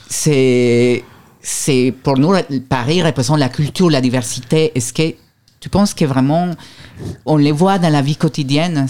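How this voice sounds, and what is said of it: Foreign accent in French. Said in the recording (French): “avec mon accent, vous savez, je suis étranger”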